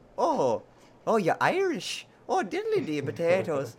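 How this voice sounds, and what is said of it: Put-on Irish accent. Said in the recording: “I don't have any more Irish accent, so I'm going to stop it now”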